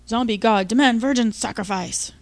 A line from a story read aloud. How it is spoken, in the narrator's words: growled Jimmy